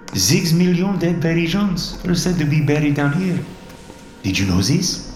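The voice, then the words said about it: Speaking in a heavy accent. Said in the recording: “asked in his heavy accent”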